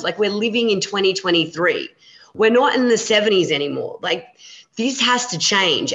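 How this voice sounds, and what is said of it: Angry, riled-up voice. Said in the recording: “it just makes me so angry, and you can hear it in my voice that it riles me up”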